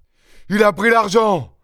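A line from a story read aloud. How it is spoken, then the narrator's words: Vociferous shout. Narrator (French): vociféra Maître Goussot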